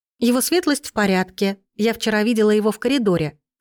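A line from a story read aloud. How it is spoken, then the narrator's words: Plain. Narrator (Russian): сказала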